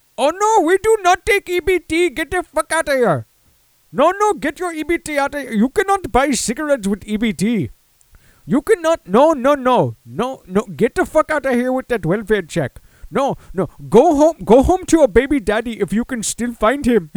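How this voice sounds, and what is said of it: Convenience store clerk impression. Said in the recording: “how do I do an impression of a zombified convenience store clerk? I mean, I could do a basic convenience store clerk.”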